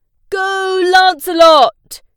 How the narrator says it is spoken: his dad cried

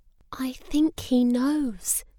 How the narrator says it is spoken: whispered Hippo

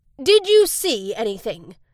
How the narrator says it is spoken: Max asked Maggie

